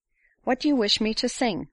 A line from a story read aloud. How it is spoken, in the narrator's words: said Paula